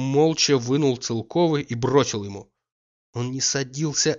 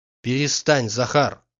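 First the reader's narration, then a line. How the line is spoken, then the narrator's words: Stern interruption. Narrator (Russian): строго перебил Обломов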